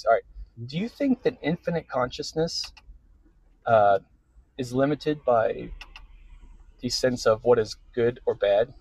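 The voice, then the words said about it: Put-on serious voice. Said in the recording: “I got to get my serious voice.”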